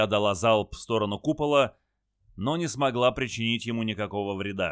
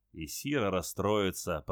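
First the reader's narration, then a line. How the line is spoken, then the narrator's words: Mutter under breath. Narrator (Russian): пробормотал себе под нос капитан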